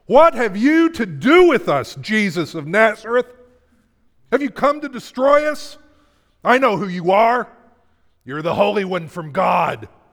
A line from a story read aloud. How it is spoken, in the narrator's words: a person with an evil spirit screamed